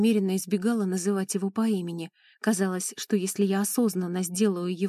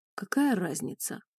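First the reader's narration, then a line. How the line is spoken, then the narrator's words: Bearded man grumbling. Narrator (Russian): пробурчал бородач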